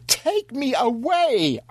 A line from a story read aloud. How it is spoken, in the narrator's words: I wailed